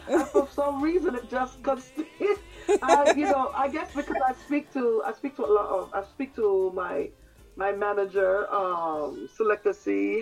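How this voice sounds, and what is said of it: English accent. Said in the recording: “I can hear... the English accent, you know, and I'm saying, how long have you left London, and I'm still hearing this accent ... your accent is still very alive”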